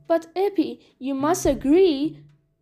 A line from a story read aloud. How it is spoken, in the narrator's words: he cried